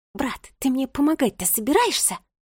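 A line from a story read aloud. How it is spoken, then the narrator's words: Hissing woman. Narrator (Russian): прошипела будущая писательница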